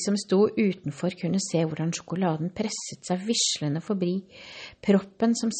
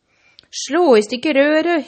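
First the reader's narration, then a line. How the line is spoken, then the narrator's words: Shrieked. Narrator (Norwegian): hylte fru Gloop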